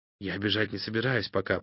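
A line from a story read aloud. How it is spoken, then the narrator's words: Whisper. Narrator (Russian): прошептал опарин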